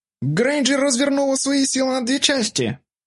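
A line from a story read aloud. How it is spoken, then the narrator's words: Shouted. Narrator (Russian): выкрикнул Нот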